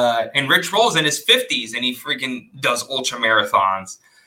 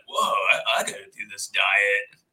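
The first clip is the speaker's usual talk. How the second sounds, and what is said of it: Poor imitation of another person's voice. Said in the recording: “that was the worst Joe Rogan impression I've heard”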